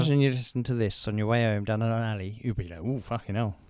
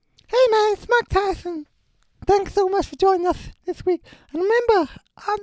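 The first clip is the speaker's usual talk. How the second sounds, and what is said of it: Imitates another person's voice. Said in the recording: “your Mike Tyson impression”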